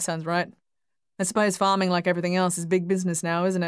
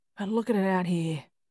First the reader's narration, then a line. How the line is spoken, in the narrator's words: Frank said with a sigh